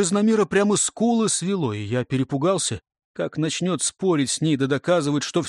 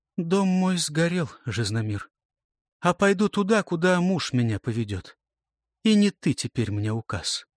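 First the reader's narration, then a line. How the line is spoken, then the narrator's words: Proud, calm reply. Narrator (Russian): Гордо ответила спокойно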